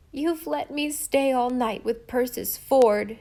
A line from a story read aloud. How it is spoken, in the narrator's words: sobbed